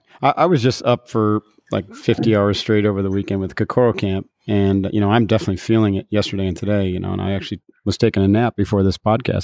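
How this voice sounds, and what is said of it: Slightly groggy, sleepy voice. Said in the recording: “I sound a little groggy.”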